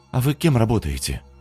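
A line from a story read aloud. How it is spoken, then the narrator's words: Timid question. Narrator (Russian): робко уточнила Маша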